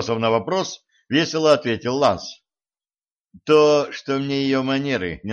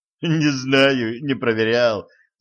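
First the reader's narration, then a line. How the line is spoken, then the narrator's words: Laughing. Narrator (Russian): засмеялся Ланс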